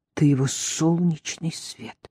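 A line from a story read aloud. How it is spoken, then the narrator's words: Muttering. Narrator (Russian): пробормотала Рис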